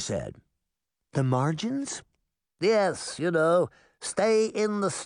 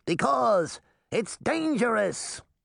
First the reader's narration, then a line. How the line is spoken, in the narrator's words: the little man shouted